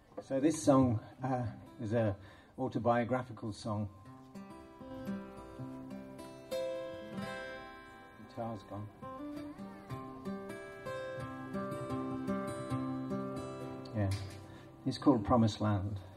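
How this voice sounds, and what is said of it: Irish accent. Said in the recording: “from that, you can tell that I'm Irish, if not by my accent.”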